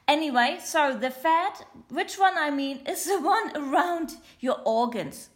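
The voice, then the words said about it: German accent in English. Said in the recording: “my mother language is German, not English ... my weird accent. It's quite German, it's a little bit of something else and a little bit of English.”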